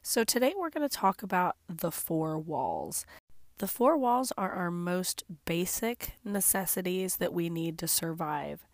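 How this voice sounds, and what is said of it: Congested voice from a cold. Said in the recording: “I have a cold. ... in hopes that my voice would get better, but it hasn't.”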